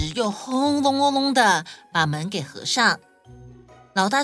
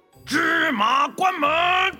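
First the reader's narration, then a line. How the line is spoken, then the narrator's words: Loud shout. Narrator (Chinese): 老大又大喊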